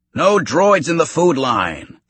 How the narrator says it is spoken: the server yelled

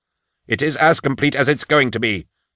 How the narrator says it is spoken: snapped

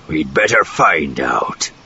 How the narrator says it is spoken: Zothip grunted

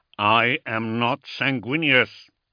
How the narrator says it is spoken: he said through gritted teeth

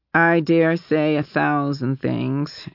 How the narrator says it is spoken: she replied dryly

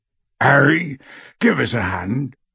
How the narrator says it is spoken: called Hagrid hoarsely from the door

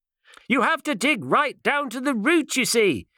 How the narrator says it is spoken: shouted the doctor to his departing back

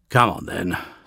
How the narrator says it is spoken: sighed Sol-X

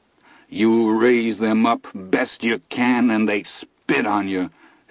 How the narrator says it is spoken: his father says thickly

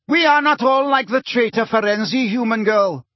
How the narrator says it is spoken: shouted the Grey Centaur

